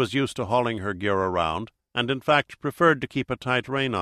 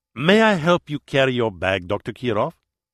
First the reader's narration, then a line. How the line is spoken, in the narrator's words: In his thick Spanish accent, Raúl González said